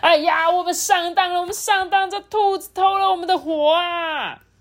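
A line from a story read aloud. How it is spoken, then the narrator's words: Shouting. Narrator (Chinese): 天人就大喊说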